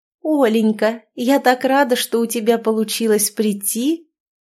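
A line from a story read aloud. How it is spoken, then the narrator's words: Sickly-sweet voice. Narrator (Russian): приторно-сладким голосом заговорила девушка Игоря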